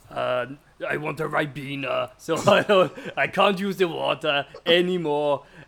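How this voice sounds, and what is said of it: Poor imitation of another person's voice. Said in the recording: “I don't do a very good Arnie impression... You really don't.”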